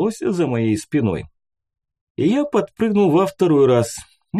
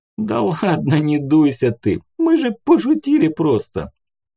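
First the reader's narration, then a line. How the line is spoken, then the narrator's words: Conciliatory purr. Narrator (Russian): Примирительно промурлыкал рыжий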